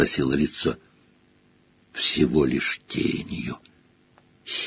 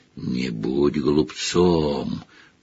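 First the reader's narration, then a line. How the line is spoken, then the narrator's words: Growl. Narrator (Russian): прорычало лицо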